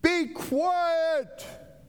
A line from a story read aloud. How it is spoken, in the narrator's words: And the storm is ferocious, and he's yelling